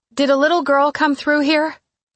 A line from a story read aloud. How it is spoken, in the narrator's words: I shouted